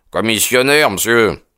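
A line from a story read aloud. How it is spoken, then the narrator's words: Brusque voice. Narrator (French): dit-il d'une voix brusque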